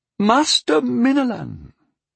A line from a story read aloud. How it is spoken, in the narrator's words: the Lord of Bovall said around his pipe stem in his high, reedy voice